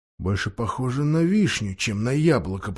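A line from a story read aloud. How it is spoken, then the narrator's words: Silent inner whisper. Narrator (Russian): прошептал он, но вслух ничего не сказал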